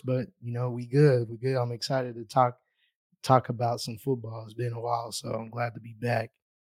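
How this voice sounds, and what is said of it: Hoarse, recovering voice. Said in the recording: “The voice is still hoarse ... as you guys can hear, he's not all the way back”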